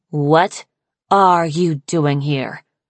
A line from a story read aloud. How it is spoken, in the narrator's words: Snowfall growled at her